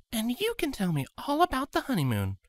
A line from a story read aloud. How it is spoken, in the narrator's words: Cadence whispered into Scarlet's ear, a mischievous grin on her face